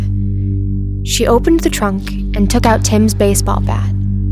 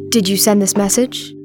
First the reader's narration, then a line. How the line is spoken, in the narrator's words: he asked